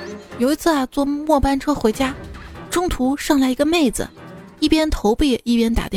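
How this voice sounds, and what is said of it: Usual voice. Nothing is said of it.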